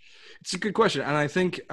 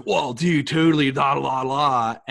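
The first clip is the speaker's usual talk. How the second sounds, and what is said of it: Laid-back surfer dude voice. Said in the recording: “can you do a surfer voice? ... now slow down”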